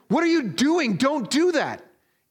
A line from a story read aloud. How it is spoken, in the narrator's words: the SEAL captain shouts out after him